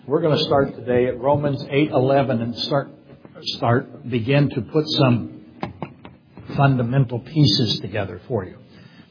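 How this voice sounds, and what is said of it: Hoarse, worn-out voice. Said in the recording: “my voice is kind of shot today... It just sometimes goes away”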